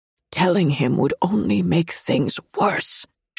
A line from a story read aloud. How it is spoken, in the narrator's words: she whimpers